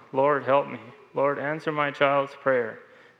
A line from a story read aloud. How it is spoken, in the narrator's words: Tears filled my eyes, I cried aloud